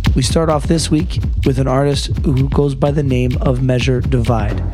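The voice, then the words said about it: Hoarse, strained voice from illness. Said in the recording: “my voice is just about shot. I picked up a pretty nasty cold, which has done some bad things to it.”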